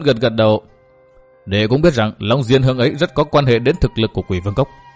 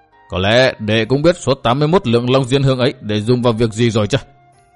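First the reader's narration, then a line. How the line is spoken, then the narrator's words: Stern voice. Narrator (Vietnamese): Đinh Cao nghiêm giọng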